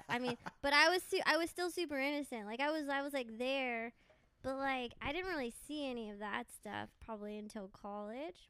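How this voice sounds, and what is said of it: Californian accent. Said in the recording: “pure California ... Can you tell by my accent?”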